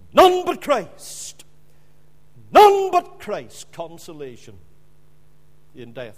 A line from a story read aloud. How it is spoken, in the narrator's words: Just before he died, he cried out in his dying voice